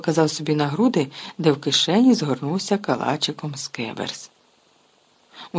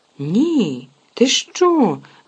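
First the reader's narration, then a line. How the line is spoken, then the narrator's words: Exclaiming. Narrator (Ukrainian): вигукнув Рон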